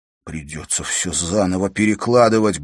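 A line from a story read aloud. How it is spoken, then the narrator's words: Muttering. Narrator (Russian): бормотал он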